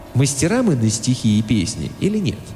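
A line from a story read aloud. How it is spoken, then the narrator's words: Calm. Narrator (Russian): спокойно сказал Тимолти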